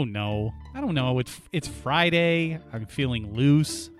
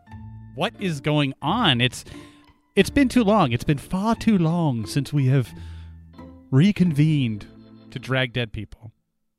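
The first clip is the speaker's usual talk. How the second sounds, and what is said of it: Odd put-on theatrical accent. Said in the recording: “What is that accent?”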